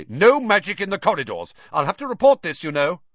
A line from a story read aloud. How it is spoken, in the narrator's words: said Percy loudly